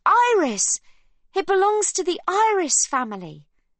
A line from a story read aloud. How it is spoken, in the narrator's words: Livy blurts out with pride